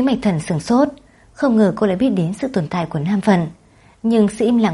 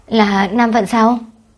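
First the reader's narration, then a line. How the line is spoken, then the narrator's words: Startled, choked questioning. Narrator (Vietnamese): Văn Mộng Âm giật mình, hít sâu một hơi, cực kỳ để nén sự nghẹn ngào, chất vấn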